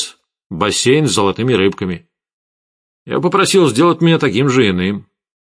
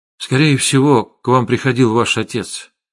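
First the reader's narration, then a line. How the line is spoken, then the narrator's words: Plain. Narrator (Russian): сказал я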